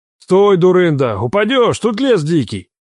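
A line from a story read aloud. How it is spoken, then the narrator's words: Bark. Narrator (Russian): Рявкнул я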